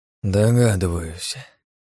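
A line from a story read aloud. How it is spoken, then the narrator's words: Sighing. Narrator (Russian): вздохнул я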